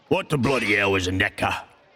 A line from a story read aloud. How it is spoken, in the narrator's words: Gregor snarled